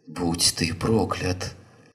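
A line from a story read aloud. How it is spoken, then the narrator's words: Hiss. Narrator (Russian): прошипела мисс Шафер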